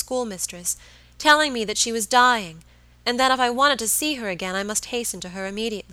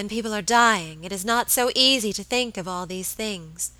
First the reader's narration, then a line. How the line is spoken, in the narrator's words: murmured my lady, looking reproachfully